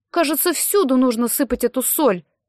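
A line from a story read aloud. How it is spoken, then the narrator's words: Annoyed exclamation. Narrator (Russian): воскликнула Салли, которой надоело открывать коробочку из-под пилюль, наполненную солью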